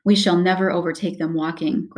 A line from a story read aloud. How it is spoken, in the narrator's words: growled the dwarf